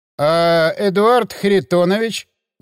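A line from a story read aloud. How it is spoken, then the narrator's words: Uncertain drawl. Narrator (Russian): неуверенно протянул Кузьминок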